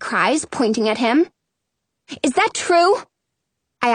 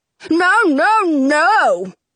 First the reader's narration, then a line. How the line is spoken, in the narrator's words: Frederick yells